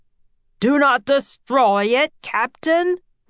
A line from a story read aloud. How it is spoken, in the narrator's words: roared the professor